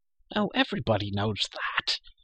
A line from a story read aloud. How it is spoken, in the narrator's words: said Elenwy